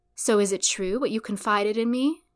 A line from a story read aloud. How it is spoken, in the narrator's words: he asked her